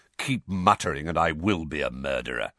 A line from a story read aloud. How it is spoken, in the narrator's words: said Sirius irritably